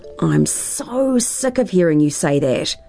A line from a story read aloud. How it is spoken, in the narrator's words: groaned Tara